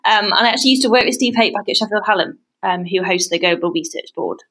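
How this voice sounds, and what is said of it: British English accent. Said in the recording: “that's a very unique Aussie accent ... you are British as well ... my accent gave me away”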